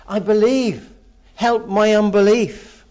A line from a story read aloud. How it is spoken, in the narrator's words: the father of the boy immediately exclaims